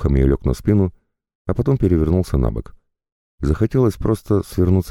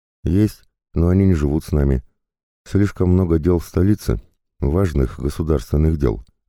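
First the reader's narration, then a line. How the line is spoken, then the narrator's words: Plain. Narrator (Russian): ответил он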